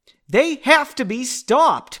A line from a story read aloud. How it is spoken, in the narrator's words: Margot yelled